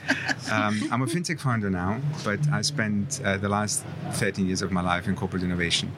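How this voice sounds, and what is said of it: Accent between British and German. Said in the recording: “My accent's somewhat between British and German”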